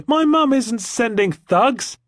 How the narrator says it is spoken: cried Jemima

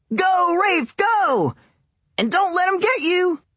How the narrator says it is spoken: yelled

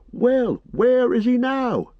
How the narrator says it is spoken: cried several voices

